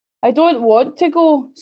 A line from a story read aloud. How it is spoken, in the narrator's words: sobbed the Little Princess